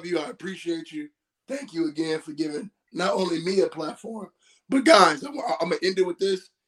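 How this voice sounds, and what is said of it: Hoarse, strained, nearly lost voice. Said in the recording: “My voice is gone ... my voice is gone”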